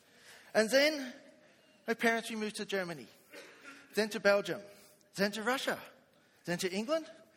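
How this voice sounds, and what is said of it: Funny-sounding put-on foreign accent. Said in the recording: “working on your accent. ... you sound a bit funny. ... I'm not from around here.”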